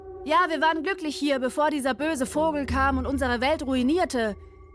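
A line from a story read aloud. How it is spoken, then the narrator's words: Another voice calling. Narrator (German): rief jetzt eine andere Stimme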